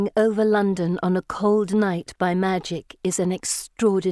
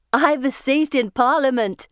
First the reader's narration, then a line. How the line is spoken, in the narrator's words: she says, laughing